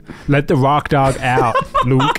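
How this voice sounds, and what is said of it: Put-on rock documentary character accent. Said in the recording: “I don't know what accent I'm doing now. ... I feel like some Dave Fridman kind of character from like every rock documentary ever.”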